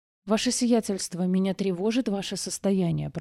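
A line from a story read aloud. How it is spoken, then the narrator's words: Mutter. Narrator (Russian): пробормотал Авиокранц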